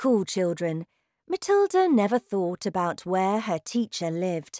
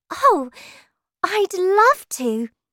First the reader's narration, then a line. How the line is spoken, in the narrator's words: said Matilda happily